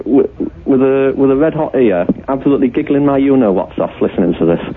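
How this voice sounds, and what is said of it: Yorkshire accent. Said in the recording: “what is that accent? ... Is that the comedy accent that people have who come from Hull? ... Well, Yorkshire. ... you speak amusingly ... Doesn't he speak funnily?”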